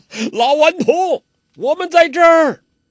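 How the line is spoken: Loud, clear laughter. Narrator (Chinese): 洪七公朗声笑道

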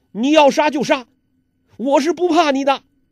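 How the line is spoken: Agitated shouting. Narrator (Chinese): 尹志平时又叫又跳

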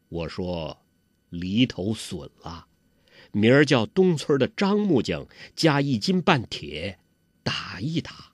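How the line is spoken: Slow, measured. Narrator (Chinese): 杨铁心缓缓地说

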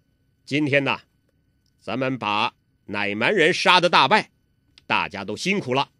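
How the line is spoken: Loud. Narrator (Chinese): 铁木真大声地说

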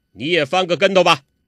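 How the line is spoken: Stern, sharp. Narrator (Chinese): 柯镇恶厉声说

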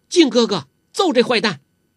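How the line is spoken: Shouting from outside. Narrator (Chinese): 黄蓉在窗子外边叫起来了

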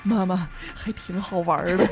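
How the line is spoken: Forced, insincere smile. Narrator (Chinese): 我儿子皮笑肉不笑的说

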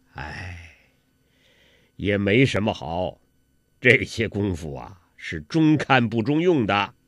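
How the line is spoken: Sighing. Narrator (Chinese): 洪七公叹了口气

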